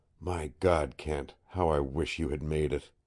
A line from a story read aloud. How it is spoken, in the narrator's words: he added in a whisper